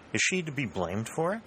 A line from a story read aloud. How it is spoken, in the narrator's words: said Prescott